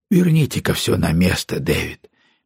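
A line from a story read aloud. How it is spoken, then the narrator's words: Gentle suggestion. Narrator (Russian): мягко предложил он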